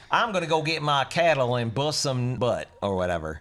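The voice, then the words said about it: Put-on Southern drawl. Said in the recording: “How about Southern? ... You gotta speak like this if you're from the South. ... You gotta drawl your voice like this.”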